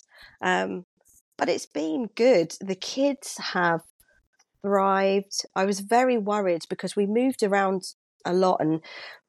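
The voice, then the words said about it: British accent. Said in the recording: “You're British," because obviously the accent is”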